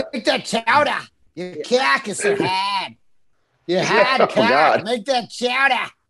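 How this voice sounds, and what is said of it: Put-on Boston accent. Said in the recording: “The unsexiest is probably Boston.”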